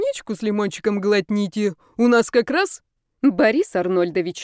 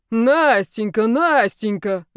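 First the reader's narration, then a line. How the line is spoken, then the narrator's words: Booming resonant bass. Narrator (Russian): загромыхал звучным басом руководитель кафедры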